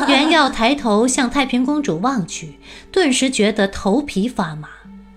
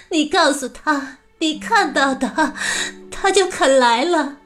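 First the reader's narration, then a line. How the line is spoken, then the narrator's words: Cold sneering laugh. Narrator (Chinese): 太平公主 冷笑道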